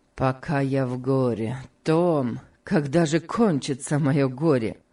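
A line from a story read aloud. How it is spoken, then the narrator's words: Sad. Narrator (Russian): сказал Сенклер, грустно глядя в окно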